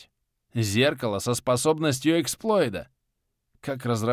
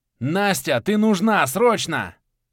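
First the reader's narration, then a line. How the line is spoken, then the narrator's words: Yell. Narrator (Russian): Заорал я в пространство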